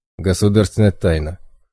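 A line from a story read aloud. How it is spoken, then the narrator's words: Guard's snort. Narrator (Russian): хмыкнул первоохранник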